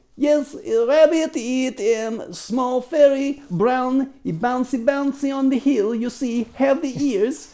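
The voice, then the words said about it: Made-up foreign accent. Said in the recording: “I'm just making up accents, folks. Who knows what they really sound like?”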